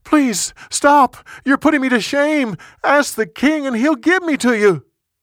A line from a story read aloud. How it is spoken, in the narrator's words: She begged him